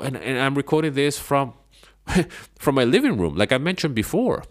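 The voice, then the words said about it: Non-native English accent. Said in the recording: “English is not even my language. It's my second language ... why I might pronounce certain words in different ways, or why I speak in a certain way ... why my accent sounds like this and not like that.”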